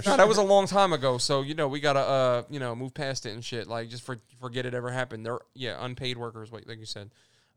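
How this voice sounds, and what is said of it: Sarcastic, mock-serious delivery. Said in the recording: “I'm being sarcastic.”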